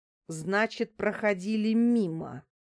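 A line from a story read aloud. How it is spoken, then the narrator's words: Menacing repetition. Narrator (Russian): повторил он грозно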